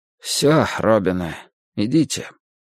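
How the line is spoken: Husky, muffled voice. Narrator (Russian): Чиж сказал все так же сипловато, глухо

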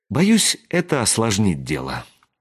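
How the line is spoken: Sighing. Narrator (Russian): вздохнула Шота

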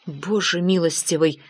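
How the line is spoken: Whisper. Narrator (Russian): прошептал Эллиот

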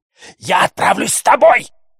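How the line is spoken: Shout. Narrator (Russian): крикнула Макласки

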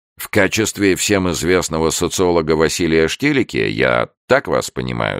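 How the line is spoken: Plain. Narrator (Russian): спросил он

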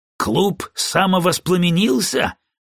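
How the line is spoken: Muttered. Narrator (Russian): пробурчал один из них

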